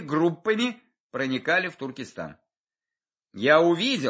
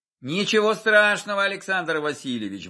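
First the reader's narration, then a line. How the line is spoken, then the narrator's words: Cheerful reassurance. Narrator (Russian): бодро заверил я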